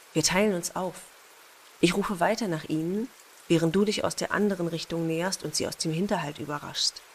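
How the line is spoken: Whisper. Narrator (German): flüsterte Eric

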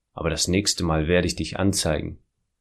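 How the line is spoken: Angry muttering. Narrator (German): wutschnaubend murmelte

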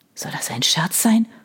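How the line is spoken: Hissed. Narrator (German): fauchte Chris

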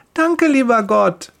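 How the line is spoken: Cheerful call. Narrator (German): ruft sie fröhlich

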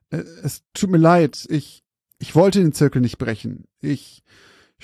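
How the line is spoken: Older man, apologetic stammer. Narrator (German): stammelte der ältere Mann vor sich hin und entschuldigend

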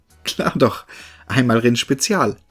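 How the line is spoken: Young man laughing. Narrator (German): lachte der junge Mann

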